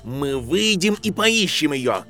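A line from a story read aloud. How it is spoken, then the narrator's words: Snapped back. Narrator (Russian): Огрызнулся в ответ Рон Уизли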